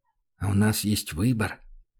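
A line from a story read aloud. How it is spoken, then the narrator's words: Trembling whisper. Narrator (Russian): спросил он шепотом, пытаясь унять предательскую дрожь в голосе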